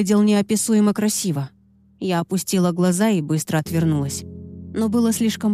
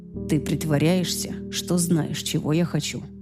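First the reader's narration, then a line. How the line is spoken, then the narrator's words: Quiet speech. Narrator (Russian): тихо заговорил он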